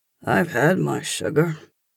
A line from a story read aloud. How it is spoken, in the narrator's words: I murmur against her skin